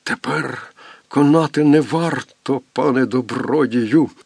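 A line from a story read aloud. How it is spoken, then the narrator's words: Blind man's hoarse rasp. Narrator (Ukrainian): прохрипів сліпий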